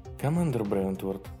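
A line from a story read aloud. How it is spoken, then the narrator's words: Quiet. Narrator (Russian): тихо сказала Хонор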